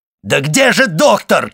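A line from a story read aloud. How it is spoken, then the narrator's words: Shouting. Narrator (Russian): кричал Вильфор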